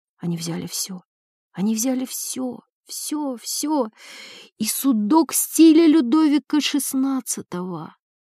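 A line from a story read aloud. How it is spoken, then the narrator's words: Barely audible childlike whisper. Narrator (Russian): Еле слышным голосом, голосом ребенка, она прошептала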